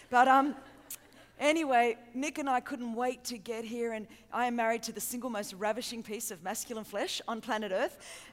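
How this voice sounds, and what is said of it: Australian accent. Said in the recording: “I hope you understand my accent ... I'm from Sydney, Australia, the great land down under”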